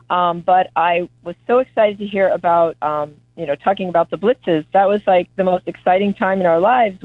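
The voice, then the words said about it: Voice sounds a little off. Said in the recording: “my voice is a little funny”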